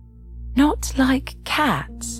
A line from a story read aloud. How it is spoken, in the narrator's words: cried the mouse in a shrill, passionate voice